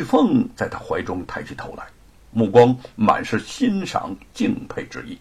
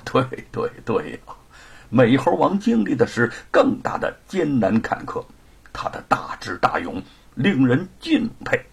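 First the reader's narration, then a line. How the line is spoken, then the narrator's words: Laughing. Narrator (Chinese): 吴承恩笑着说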